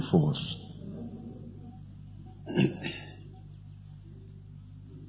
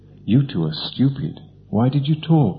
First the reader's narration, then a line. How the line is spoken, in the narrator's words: asked the third